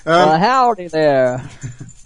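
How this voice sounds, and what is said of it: Southern US accent imitation. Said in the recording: “Peter Burvis's sort of South Clanton, Alabama accent didn't quite work for me.”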